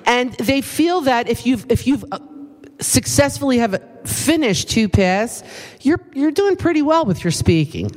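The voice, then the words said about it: East Coast American accent. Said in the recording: “my East Coast accent that I know I still have after many years”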